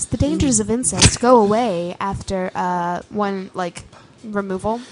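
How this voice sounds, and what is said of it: Mock NPR radio voice. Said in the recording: “As I put on my NPR voice”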